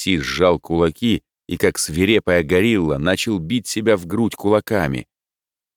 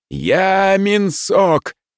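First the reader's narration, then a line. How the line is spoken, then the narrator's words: Male shout. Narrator (Russian): снова крикнул он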